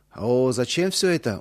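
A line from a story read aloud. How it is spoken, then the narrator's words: Surprised drawl. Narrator (Russian): удивленно протянул Иосиф Дмитриевич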